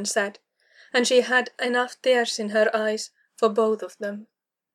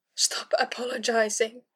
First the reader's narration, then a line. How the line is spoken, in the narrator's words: Kara rasped, tasting bile